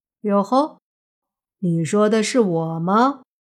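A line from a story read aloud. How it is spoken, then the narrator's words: Lazy drawl. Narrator (Chinese): 莫凡声音有些懒洋洋的说道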